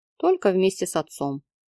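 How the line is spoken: Calm reminder, doctor. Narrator (Russian): спокойно напомнил врач

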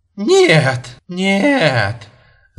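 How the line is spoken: Laughing. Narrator (Russian): Засмеялась она

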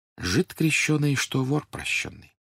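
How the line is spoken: Apologetic whisper. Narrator (Russian): говорили шепотом другим гостям, как бы оправдываясь

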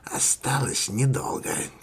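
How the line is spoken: Quiet. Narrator (Russian): тихо сказала она

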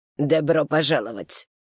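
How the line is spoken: Old woman through teeth. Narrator (Russian): процедила старушка из ада

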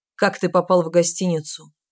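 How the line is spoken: Grim repetition. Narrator (Russian): мрачно повторил командор

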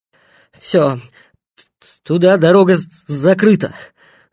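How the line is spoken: Breathless gasp. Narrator (Russian): выдохнул запыхавшийся Стасюк

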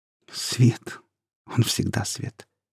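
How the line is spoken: Trembling voice. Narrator (Russian): дрожащим голосом ответила

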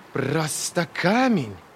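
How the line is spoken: Growl. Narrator (Russian): прорычала Ферро

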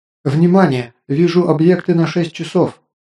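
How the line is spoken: Exclamation. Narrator (Russian): воскликнула Кристалл

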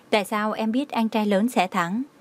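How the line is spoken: Smiling question. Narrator (Vietnamese): Trang Hải Lâm mỉm cười, hỏi

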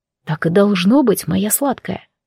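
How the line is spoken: Muffled tender murmur. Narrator (Russian): бормочет Габриэль, прижимаясь губами к моей груди

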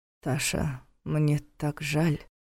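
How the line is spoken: Remorseful mumble. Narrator (Russian): сокрушенно пробормотал Повелос

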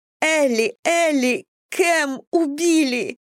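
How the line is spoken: Muffled sobbing. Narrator (Russian): рыдала Мэдисон, уткнувшись ей в плечо

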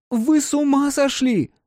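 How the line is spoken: Shouted loudly. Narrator (Russian): закричала на весь пустынный двор

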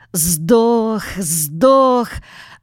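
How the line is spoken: Joyful shout. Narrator (Russian): радостно крикнул он

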